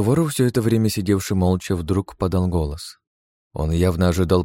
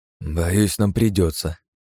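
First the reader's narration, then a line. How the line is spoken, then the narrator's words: Sighing. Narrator (Russian): вздохнул я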